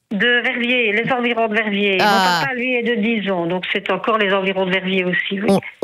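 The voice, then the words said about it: Slight regional French accent. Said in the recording (French): “On l'entend au petit accent qu'on a. ... Gardez-le. C'est magnifique.”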